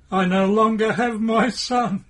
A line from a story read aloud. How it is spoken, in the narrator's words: She shouts